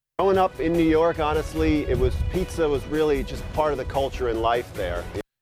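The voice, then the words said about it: Proper-sounding, no New York accent. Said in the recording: “He doesn't sound like he's from fucking New York... It sounds way too proper for me... he sounds like he's from Connecticut”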